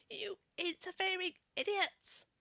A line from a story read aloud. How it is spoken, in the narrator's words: he shrieked